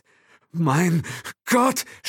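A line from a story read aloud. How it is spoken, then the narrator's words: Stammering. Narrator (German): stammelte Will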